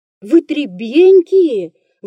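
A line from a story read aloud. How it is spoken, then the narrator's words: Stern exclamation. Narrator (Russian): воскликнул строгий допросчик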